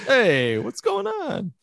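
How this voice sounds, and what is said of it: Put-on Italian accent. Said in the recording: “the Italian accent seems to be the only one that's accepted that you can like pretend to have”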